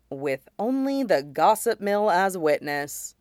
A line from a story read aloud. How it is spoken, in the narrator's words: Cody agrees with a sigh